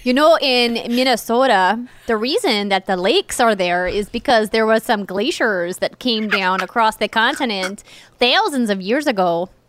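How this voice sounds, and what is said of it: North Dakota regional accent. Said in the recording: “that's just my North Dakota coming out ... most of the accent really comes from the way that you enunciate words with your tongue and your lips. It's not really nasal at all.”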